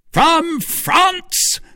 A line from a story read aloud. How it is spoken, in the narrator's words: cried Buckingham